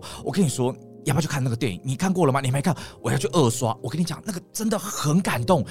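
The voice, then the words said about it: Imitating a friend's eager talking style. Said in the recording (Chinese): “他讲话就是这样 ... 你模仿他 ... 订东西的时候，他就是这样”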